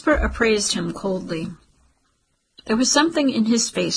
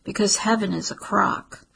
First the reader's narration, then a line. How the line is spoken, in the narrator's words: Jasper said softly